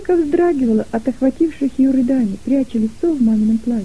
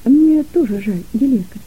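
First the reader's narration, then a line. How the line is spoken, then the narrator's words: Gentle reply. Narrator (Russian): мягко ответила мама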